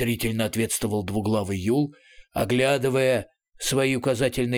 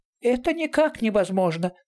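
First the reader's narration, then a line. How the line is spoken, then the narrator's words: Thin high voice. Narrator (Russian): тоненьким голосом подтвердил Ятуркин Джансерхив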